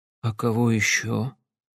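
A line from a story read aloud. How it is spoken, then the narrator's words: Quiet mutter. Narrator (Russian): тихо пробормотал Сэм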